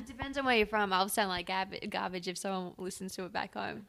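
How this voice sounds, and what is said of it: Australian accent. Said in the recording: “your adorable voice ... Oh, my accent? ... Brisbane, mm-hmm, Australia”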